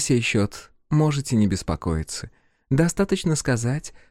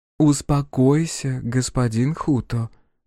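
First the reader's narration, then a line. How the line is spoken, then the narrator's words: Soft gentle voice. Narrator (Russian): мягко проговорила светоносица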